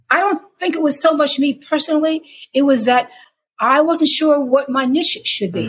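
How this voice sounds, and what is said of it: New York accent, not gravelly. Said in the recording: “I don't have a Southern accent, I don't have like, you know, a deep, deep, deep contralto, gravelly, gospely voice. I sound like I'm from New York.”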